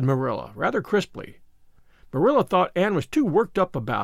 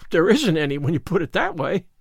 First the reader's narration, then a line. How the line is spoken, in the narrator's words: gasped Anne, rather as if somebody had thrown cold water over her